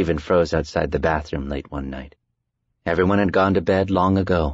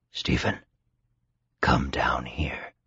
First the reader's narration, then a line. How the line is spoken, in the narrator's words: it whispered